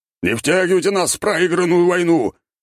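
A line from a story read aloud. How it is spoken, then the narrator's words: Man shouting. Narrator (Russian): кричал мужчина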